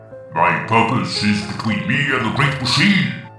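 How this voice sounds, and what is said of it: Barked, pompous impression of Lever 42. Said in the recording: “Flint barks, doing a passable impression of Lever 42's pompous delivery.”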